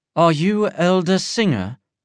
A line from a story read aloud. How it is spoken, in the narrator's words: the king asked, her voice cold and elegant